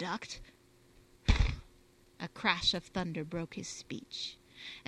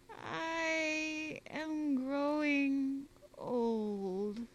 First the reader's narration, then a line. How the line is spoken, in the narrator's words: said the Paduan, in slow, wailing tones